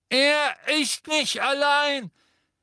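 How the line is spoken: Called from above. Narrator (German): rief eine Stimme von oben her

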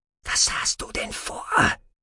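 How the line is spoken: Whisper. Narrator (German): flüsterte sie

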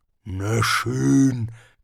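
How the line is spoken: Growling. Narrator (German): knurrte Hrun

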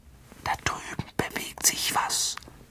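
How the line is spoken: Whisper. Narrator (German): flüsterte Harry

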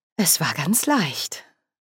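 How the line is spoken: Slightly proud. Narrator (German): sagte Margaret, und ein Hauch von Stolz schwang in ihrer Stimme

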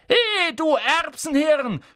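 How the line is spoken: Shouting from afar. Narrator (German): schrie Ron von der anderen Seite des Raums

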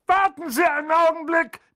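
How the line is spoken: Bellowed toward fireplace. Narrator (German): brüllte er in Richtung Kamin

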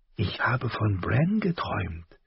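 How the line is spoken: Whisper. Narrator (German): hatte Sansa ihm zugeflüstert

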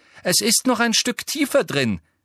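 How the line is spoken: Loud call over shoulder. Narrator (German): rief laut über die Schulter

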